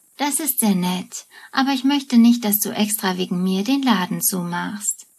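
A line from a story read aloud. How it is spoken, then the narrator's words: Plain. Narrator (German): sagt Bernadette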